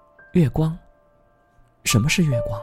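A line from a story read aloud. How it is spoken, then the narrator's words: Dazed soft murmur. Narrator (Chinese): 叶心只觉得一阵眩晕，轻声念道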